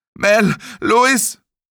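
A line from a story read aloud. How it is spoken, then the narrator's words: Bellowing. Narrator (German): brüllte er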